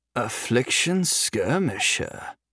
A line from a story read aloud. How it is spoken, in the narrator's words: he muttered to himself